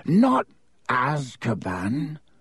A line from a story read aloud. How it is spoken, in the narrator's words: croaked Hagrid